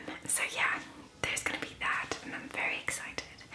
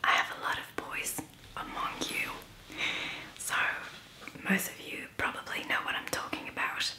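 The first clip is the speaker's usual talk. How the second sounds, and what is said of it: Briefly slips into Irish-sounding accent. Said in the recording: “I sounded very Irish for some reason.”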